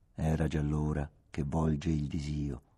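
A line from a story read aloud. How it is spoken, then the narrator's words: Quiet ironic declamation nearby. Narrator (Italian): declamò una voce ironica, piano, accanto a me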